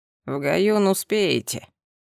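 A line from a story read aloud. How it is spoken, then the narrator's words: Understanding grumble. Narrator (Russian): проворчал он понимающе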